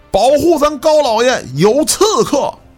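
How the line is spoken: Loud alarmed shout. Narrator (Chinese): 响枪之后，了然高喊一声

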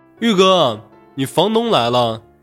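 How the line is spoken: Shouting. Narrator (Chinese): 朝厨房大喊

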